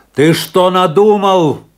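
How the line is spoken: Shouted while running. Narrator (Russian): крикнул ему на бегу Афанасий

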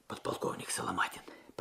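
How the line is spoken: Whisper. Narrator (Russian): прошептал Алексей

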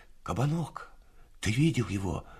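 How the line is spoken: Whispering young man. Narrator (Russian): шепотом спросил один из них, мальчик лет 19

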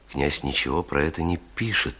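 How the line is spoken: Quiet. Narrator (Russian): тихо сказал он

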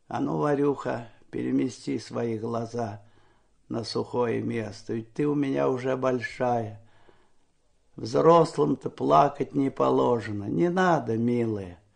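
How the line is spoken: Quiet, encouraging. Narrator (Russian): ободряюще улыбался и тихо говорил

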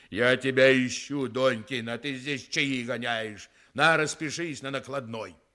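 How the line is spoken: Angry booming bass, huge man. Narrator (Russian): громадное человечище … сказал сердитым басом, как из бочки

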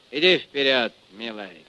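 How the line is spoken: Cold. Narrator (Russian): Чумаков холодно, сказал

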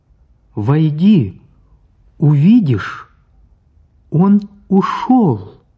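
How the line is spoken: Loud speech. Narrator (Russian): Оля сказала громко

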